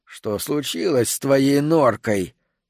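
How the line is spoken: Hoarse, low, strange voice. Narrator (Russian): Голос у него был хриплым, низким и странным, совсем не похожим на его собственный голос

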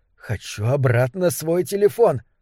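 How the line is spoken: Furious exasperated whisper. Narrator (Russian): разочарованный, раздраженный выдох, с яростью прошептал

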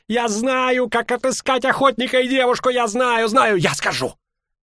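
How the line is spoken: Shrill scream. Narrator (Russian): Ринс визгливо закричал

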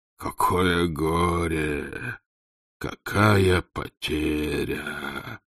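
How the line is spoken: Feigned groan. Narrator (Russian): притворно застонал он

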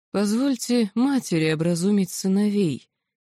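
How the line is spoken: Quiet. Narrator (Russian): тихо произнесла царица

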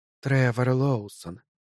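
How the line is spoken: Whisper. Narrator (Russian): прошептала Ларуш

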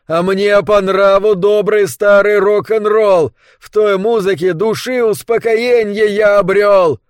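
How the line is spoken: Shouting as loud as possible. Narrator (Russian): Он выкрикивал это так громко, как только мог, одну строку и другую

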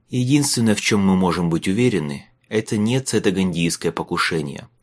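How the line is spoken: Sighing. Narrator (Russian): вздохнул Майлз

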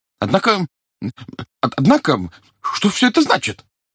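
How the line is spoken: Trembling exclamation. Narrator (Russian): Дрогнувшим голосом воскликнул очкастый со спаньолкой

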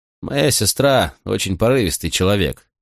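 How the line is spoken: Gloomy. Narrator (Russian): сказал он мрачно

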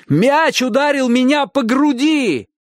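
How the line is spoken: Shout. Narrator (Russian): крикнул Чик

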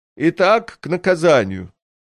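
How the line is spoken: Loud throat-clear, declaration. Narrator (Russian): Он громко прокашлялся и заявил

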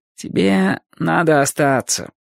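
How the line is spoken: Mumbling. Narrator (Russian): промямлил он

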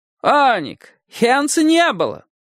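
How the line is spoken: Sudden loud interruption. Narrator (Russian): Вдруг громким голосом вмешался богатый портной

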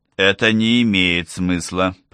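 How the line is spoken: Through gritted teeth. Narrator (Russian): процедил Олаф

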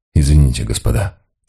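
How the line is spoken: Quiet. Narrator (Russian): тихо произнес Мигре

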